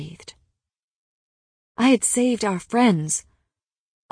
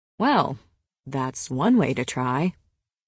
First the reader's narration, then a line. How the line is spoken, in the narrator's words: Rhys said